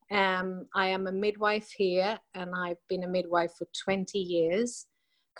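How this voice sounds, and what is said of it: Swedish speaker with half-British accent. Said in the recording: “that's why I have this sort of ... half British accent”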